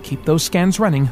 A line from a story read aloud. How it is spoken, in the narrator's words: West said anxiously